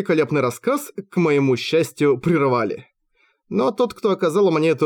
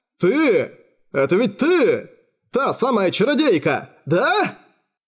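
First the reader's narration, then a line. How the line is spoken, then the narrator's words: Roar from another room. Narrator (Russian): Взревел некто в другой комнате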